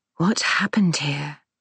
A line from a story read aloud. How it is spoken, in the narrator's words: whispers